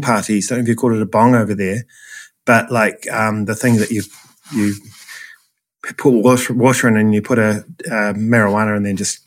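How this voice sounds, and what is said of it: New Zealand accent. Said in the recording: “my accent ... the Kiwi accent”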